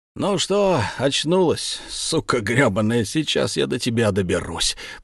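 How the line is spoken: Muffled voice behind door. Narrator (Russian): Из-за двери глухо раздалось

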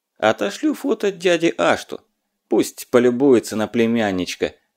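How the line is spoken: Reply then loud laughter. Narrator (Russian): ответил Лёва и захохотал

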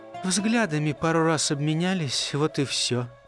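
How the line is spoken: Quiet confession. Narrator (Russian): тихо призналась хозяйка

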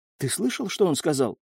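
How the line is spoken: Quiet question. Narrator (Russian): тихо спросила

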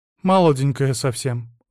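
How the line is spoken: Sad. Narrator (Russian): грустно заметила она

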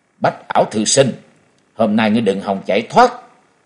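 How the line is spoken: Angry snort. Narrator (Vietnamese): Trần Lâm tức giận hừ một tiếng nói

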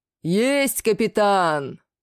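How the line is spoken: Effortless booming bass. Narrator (Russian): На полморя пробасил Легнурф, ничуть не напрягаясь

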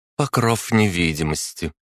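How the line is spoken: Calm explanation. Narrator (Russian): спокойно пояснила Агата

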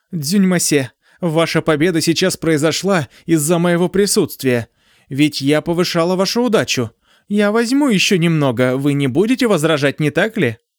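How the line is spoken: Shrieking. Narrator (Russian): Она завизжала и сказала

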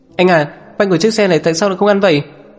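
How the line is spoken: Boy yelling. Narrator (Vietnamese): Cậu nhóc lái xe hét lên

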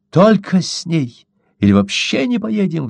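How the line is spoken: Squealed. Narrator (Russian): взвизгнула Чита

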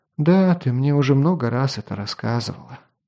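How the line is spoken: Weary sigh. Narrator (Russian): вздохнула Скади

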